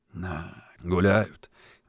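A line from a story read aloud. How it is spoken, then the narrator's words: Envious sigh. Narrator (Russian): Завистливо вздохнул дворник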